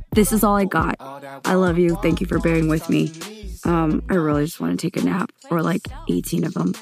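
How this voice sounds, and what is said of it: Raspy, tired-sounding voice. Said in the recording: “If you can't tell by my voice, I am exhausted, so I'm sorry I sound like a cheese grater right now.”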